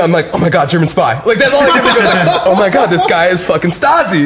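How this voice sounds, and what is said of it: Usual voice. Nothing is said of it.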